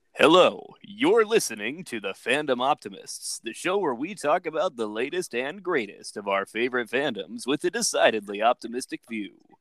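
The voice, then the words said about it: Radio announcer voice. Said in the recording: “Should I do the radio voice again? ... Thank you again, Mr. Radio”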